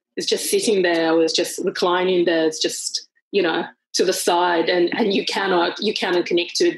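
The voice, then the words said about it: Heavily accented non-native English. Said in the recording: “I was painfully aware of my accent... this accent is so heavy... the heavier accented English”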